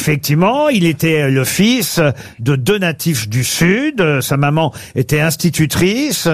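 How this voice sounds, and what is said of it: Usual voice. Nothing is said of it.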